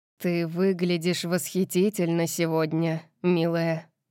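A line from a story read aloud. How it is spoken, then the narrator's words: Murmuring. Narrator (Russian): пробормотал он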